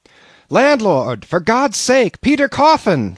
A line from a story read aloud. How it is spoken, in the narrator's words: shouted I